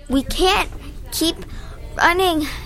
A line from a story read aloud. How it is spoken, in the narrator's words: Nick panted